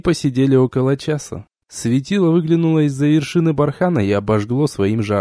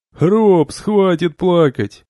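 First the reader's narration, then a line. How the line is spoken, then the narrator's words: Laughing. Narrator (Russian): засмеялся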